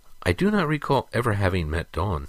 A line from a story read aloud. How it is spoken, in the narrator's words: replied hesitantly